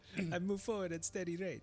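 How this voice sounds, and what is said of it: Put-on Eastern European accent. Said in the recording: “I apologize to all of Eastern Europe for my accent that I just put on.”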